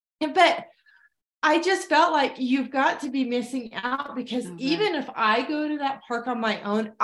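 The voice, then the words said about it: Hoarse, froggy throat. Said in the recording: “I have a frog in my throat”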